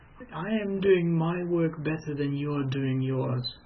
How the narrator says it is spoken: managed to say in a strangled voice

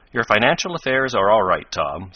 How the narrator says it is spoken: said Ned

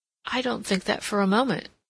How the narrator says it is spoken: Joan replied quickly, repenting of her annoyance

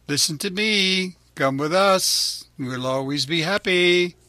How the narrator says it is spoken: Lampwick called out

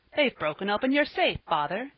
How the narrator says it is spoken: he cried in excitement

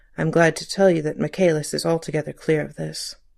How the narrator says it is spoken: The assistant commissioner added in a low tone

